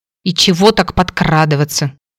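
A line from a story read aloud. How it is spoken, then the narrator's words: Angry mutter. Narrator (Russian): сердито буркнула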